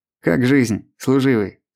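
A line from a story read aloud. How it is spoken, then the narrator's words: Plain. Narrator (Russian): спросил Михаил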